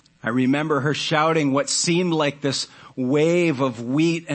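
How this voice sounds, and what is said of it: Usual voice. Nothing is said of it.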